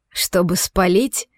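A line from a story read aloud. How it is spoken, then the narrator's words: Short laugh. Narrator (Russian): хохотнул мужчина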